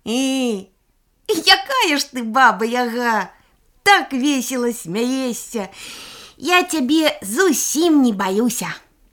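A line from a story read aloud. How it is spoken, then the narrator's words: Boy, merry after laughing. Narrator (Belarusian): хлопчык, насмяяўшыся ад душы, кажа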